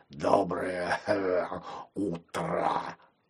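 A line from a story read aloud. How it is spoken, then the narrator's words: Hoarse. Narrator (Russian): Шпрот произнес хрипло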